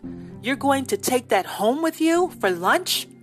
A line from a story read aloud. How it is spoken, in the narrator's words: Henny gasped